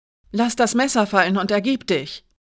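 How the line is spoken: Called out. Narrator (German): rief Alinas Freundin

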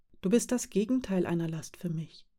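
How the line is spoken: Quiet reassurance. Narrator (German): versicherte Aschne leise

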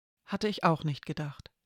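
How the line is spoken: Plain. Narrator (German): sagte Mara

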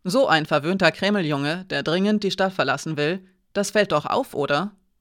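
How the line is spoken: Almost friendly snort. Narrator (German): Hiraya schnaubte, aber es klang ausnahmsweise nicht spöttisch, sondern fast freundlich

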